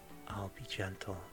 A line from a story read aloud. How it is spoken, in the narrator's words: whispered to her ear